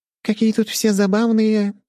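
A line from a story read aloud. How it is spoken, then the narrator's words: Giggling. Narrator (Russian): хихикнула сестра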